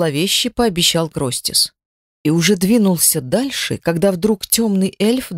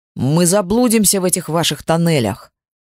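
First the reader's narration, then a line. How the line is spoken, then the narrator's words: Irritated bark. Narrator (Russian): раздраженно рявкнул эльф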